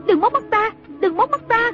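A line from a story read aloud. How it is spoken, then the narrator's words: Panicked shriek. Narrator (Vietnamese): Trung Linh hốt hoảng kêu rú lên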